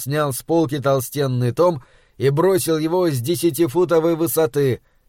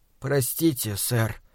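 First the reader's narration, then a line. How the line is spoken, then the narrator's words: Mumbled. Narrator (Russian): промямлил я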